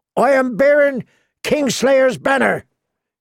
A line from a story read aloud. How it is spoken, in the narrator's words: he shouted